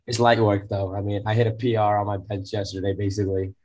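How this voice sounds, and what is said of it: Rough, sick-sounding voice. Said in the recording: “my voice is so cool, right? But I'm sick... I sound like a dead seal or like a dying seal, maybe like a dying horse”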